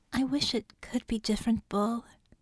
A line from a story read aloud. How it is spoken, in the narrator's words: she said softly